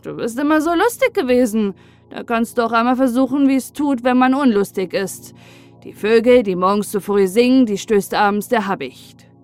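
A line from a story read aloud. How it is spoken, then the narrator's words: Scornful laugh. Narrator (German): lachte der andere höhnisch und sagte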